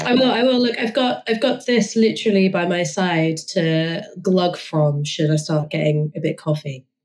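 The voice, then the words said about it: Husky hoarse voice from illness. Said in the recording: “also sounds a little bit worse for wear ... I've got a brand new sexy voice ... I do love the husky voice that comes with being a little bit sick”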